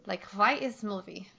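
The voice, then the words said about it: Imitated character's accent. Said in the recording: “say that, but in a Helena accent ... I love your Helena imitation. It's so perfect.”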